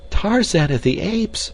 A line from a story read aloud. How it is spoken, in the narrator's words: she cried